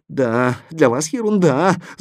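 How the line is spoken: Whimpering. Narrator (Russian): захныкал портной

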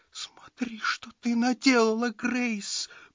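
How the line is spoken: Whimpering woman. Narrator (Russian): проскулила она

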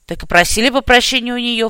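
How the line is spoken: Snorting reply. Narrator (Russian): фыркнул я в ответ

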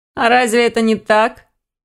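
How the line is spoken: Skeptical snort, young man. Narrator (Russian): хмыкнул кто-то из юношей

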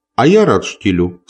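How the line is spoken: Plain. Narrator (Russian): сказал он

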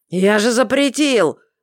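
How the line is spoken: Growl. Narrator (Russian): рыкнул папа

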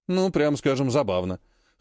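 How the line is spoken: Snort. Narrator (Russian): хмыкнул Вяземский

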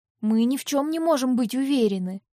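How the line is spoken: Tense voice. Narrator (Russian): ответила я напряженным голосом

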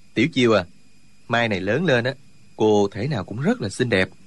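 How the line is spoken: Smiling. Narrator (Vietnamese): Trương Du Kỵ mỉm cười nói

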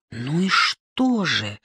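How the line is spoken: Gentle reproach. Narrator (Russian): Алексей Иванович мягко укорил

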